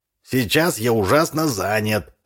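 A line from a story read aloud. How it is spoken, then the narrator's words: Plain. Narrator (Russian): ответил Андрович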